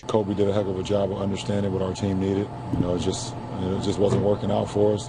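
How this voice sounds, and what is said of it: Hoarse, nearly lost voice. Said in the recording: “LeBron James, who has blown out his voice ... This is the third game in a row my voice is gone.”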